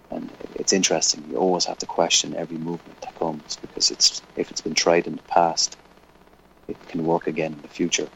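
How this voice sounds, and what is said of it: Slight Irish brogue. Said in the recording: “your Irish brogue, which is a slight brogue, but you still have one anyway”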